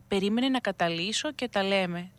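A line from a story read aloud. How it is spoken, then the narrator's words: Priest, said smiling. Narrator (Greek): του είπε χαμογελαστά ο παπάς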